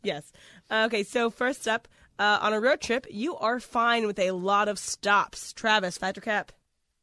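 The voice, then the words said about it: Slightly nasal congested voice. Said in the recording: “I sound a little nasally than I have been before”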